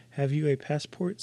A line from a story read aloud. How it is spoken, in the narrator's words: said the rat